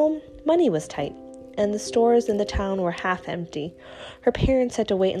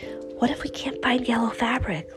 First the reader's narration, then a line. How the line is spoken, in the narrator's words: Lena whispered to Christina